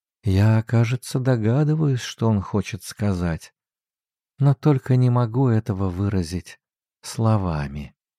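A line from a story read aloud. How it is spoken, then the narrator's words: Quiet, thoughtful counselor. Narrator (Russian): советница в раздумье тихо сказала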